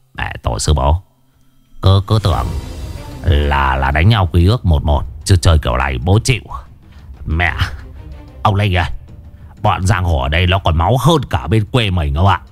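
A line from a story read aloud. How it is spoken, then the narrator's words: Mumbling. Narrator (Vietnamese): Lão Chiến Say lẩm bẩm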